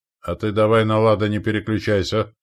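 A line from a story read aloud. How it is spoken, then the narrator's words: Snort. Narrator (Russian): хмыкнул Стоян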